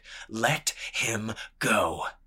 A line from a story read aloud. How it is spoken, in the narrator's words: he snarled again